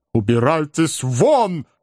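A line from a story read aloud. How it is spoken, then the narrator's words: Menacing shout. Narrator (Russian): крикнул мистер Снодгресс, грозно взирая на ошеломленного юношу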